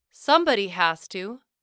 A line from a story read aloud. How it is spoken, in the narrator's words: I exclaimed with a grin